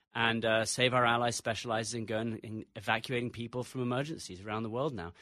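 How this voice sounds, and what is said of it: English accent. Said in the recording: “Despite the English accent, I'm an American.”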